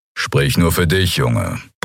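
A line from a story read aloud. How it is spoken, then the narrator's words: Grumbling. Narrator (German): brummte Kero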